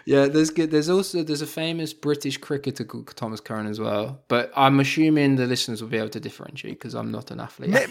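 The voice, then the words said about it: British accent. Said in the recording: “when we hear the accent, we go, I don't know, it could be cricket”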